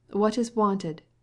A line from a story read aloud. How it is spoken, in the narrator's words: said the voice of Nikolai Levin, angrily